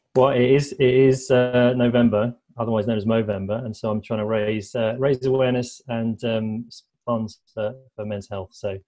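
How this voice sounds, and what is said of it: British English accent. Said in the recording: “can you explain your accent? ... I'm a Brit”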